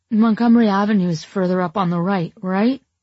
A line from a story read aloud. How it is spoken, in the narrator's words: slurring my words